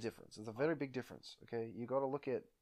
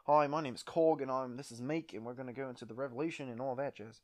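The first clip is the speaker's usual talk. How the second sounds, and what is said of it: Put-on New Zealand accent. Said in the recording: “Who's a New Zealand accent? Well, Taika Waititi is, like, the prominent New Zealand actor.”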